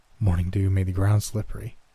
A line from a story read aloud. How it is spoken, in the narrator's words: she whispered to herself